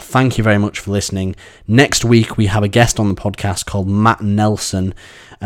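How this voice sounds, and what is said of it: Sore, strained voice. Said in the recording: “my voice is getting incredibly sore”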